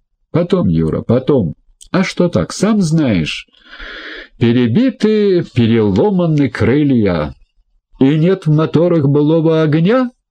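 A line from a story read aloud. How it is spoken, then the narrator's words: Joyful. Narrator (Russian): радостно подхватил Рогозин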